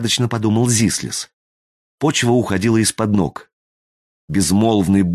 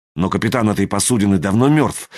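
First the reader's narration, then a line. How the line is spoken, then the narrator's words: Angry marker pen. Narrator (Russian): сердито сказал фломастер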